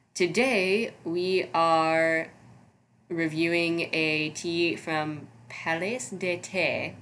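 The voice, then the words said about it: Attempted French accent. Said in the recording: “That's my attempt at a French accent. So if it was terribly wrong”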